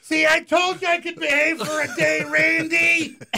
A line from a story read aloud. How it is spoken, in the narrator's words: my mom yelled